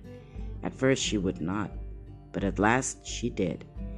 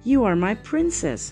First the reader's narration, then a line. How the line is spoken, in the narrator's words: cried Stefan